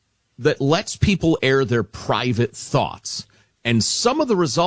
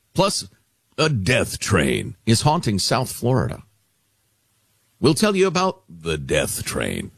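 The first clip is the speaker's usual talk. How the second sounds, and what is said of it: Scary, ominous voice. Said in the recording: “When you use that voice, it sounds very scary... Scary voice.”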